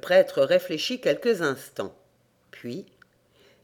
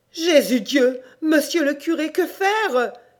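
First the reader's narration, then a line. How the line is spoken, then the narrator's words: Pleading. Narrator (French): supplia-t-elle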